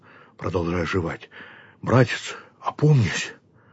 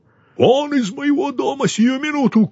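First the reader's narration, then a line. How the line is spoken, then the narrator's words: Shouting. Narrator (Russian): крикнул Яков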